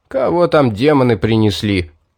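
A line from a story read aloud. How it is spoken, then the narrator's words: Grumbling. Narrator (Russian): ворчание Лорка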